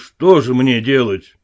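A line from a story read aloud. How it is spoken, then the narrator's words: Gloomy. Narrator (Russian): мрачно спросил он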